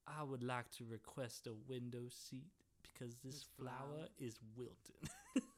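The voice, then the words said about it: Exaggerated genteel Southern accent. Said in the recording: “He speaks in that Wilton Southern accent.”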